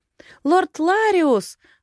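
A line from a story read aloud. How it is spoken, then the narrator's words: Sudden exclamation. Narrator (Russian): вдруг воскликнула Решалья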